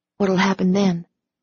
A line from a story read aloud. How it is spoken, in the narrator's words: I asked in a hushed voice